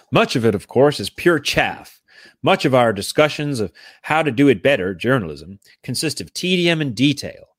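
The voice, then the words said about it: Put-on American accent. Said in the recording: “Maybe I should do this in American accent because Phil was very American.”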